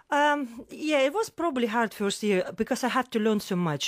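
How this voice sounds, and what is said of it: Foreign accent, attractive voice. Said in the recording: “You've got a very sexy voice... my accent... my accent is so difficult”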